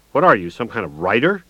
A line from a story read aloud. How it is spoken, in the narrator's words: He laughed harshly